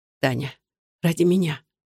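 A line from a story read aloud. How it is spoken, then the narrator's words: Whisper. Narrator (Russian): шептала она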